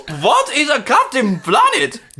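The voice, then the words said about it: Unusual exotic accent. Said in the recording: “the man with the unusual exotic accent”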